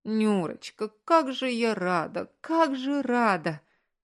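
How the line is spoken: Joyful, sobbing. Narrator (Russian): Маргарита Петровна в перерывах между всхлипами

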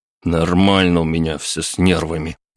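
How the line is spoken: Grumbling. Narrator (Russian): проворчал я

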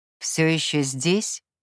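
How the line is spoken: Dry question. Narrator (Russian): сухо спросил он

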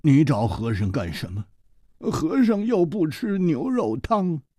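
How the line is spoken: Sighing, glum. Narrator (Chinese): 和尚叹了一口气，他苦着脸说

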